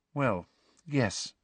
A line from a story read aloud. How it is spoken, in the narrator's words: said Hermione quietly